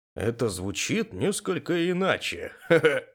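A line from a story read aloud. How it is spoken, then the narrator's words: Chuckling. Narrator (Russian): хохотнул Юрий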